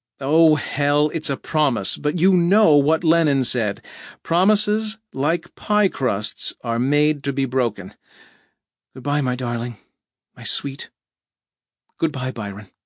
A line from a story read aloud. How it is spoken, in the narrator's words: She shrugged, laughed, and said